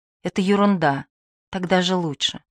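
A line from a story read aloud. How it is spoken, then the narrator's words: Tender. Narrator (Russian): он сказал ей нежно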